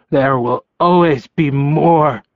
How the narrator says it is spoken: The blind Omega growled

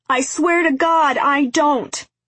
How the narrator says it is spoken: shouted Jonah

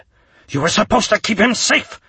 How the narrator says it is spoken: Karan barked

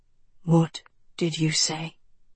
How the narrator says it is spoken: He breathed

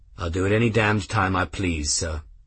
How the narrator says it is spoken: Grimm said in the same level voice

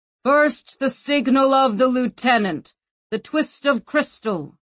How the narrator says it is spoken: bellowed the gates

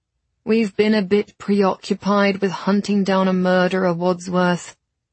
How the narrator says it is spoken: Thomas said flatly

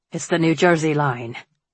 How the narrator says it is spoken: he said grimly

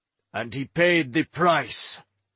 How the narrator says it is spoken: Orman growled

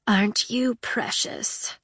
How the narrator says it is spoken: Her voice was scratchy, as if she'd not spoken for a long time

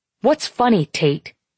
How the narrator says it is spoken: he snaps

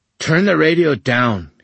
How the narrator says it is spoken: he snapped

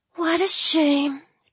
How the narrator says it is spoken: Drew sighed

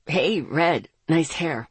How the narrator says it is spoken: he grunted as he pulled himself up

